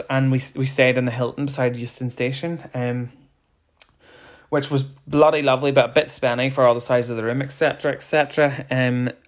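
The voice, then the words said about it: Out of breath. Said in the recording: “I'm out of breath. Out of breath from sitting down doing nothing.”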